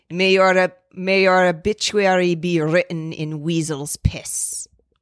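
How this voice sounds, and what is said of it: Poorly attempted put-on accent. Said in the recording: “I can't do an accent. I'm so bad.”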